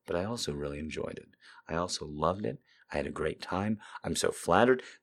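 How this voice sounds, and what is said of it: Tired voice. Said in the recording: “I'm a little tired, you can probably hear it in my voice.”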